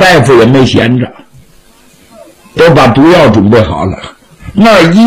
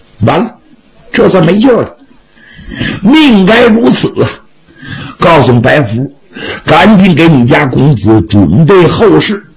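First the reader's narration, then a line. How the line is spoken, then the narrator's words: Bursting into tears. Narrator (Chinese): 吴奶奶哇一声哭出来了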